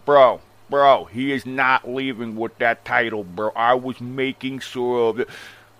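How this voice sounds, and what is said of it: Imitates another person's exaggerated accent. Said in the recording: “This shit is the fakest fucking accent I've ever heard of ... The fakest accent”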